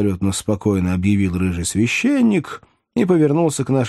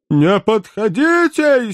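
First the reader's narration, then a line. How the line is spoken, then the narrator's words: Hysterical howl. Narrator (Russian): истерически взвыл милый Веллер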